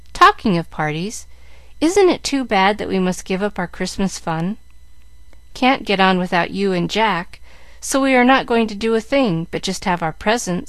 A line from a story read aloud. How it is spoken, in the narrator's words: said Mary sadly